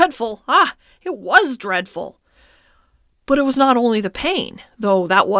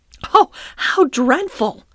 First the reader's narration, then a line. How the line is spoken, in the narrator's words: I exclaimed